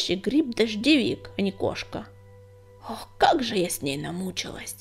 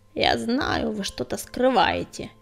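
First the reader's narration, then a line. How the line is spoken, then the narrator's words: Old woman's grumble. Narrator (Russian): проворчала старуха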